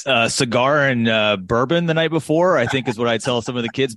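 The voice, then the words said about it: Polished broadcaster radio voice. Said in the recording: “radio voice”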